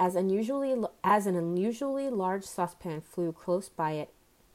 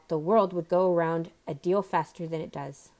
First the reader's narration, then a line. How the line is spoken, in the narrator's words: the Duchess said in a hoarse growl